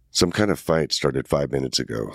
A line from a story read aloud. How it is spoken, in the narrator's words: Sergeant Descrolle said